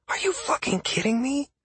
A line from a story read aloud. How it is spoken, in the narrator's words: Sierra hissed